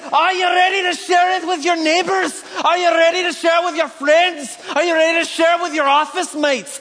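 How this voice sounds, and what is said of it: A deliberately bad Scottish accent. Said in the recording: “I'm sorry for any Scottish people that I'm about to butcher some sort of accent with ... I'm sure that's how they talk”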